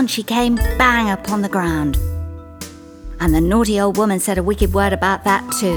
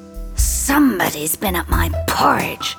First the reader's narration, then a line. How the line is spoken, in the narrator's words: said the great huge bear in his great rough, gruff voice